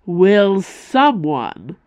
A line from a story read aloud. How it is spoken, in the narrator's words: roared Reynard Calderan, staggering forward on the verge of collapse